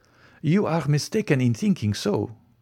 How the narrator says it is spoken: returned Franz calmly

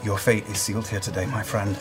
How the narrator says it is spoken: quietly, I say to Kevdak

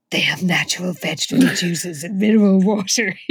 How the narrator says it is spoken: he said huskily

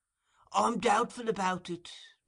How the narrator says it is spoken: replied Fagin with a sigh

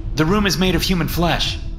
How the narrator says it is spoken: I blurted out

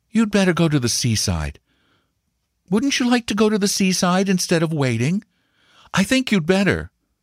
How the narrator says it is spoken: she said, looking down at him anxiously, her heart curiously heavy because of him

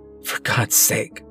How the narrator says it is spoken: I mutter to myself, desperately trying to think

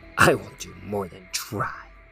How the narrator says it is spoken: snarled Sleek

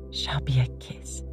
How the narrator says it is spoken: said softly, solemnly

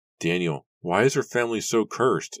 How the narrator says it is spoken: Nora cried as she ran

